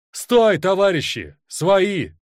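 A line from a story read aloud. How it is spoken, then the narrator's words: Shouted. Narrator (Russian): Один из них крикнул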